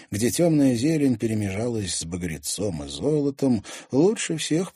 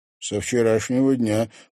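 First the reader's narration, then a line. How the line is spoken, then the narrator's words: Snorting. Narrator (Russian): хмыкнул Клим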